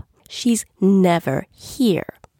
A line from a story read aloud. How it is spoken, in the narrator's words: the little girl snapped